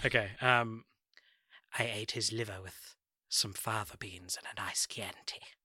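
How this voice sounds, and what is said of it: Hannibal Lecter impression. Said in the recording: “your Hannibal Lecter impression”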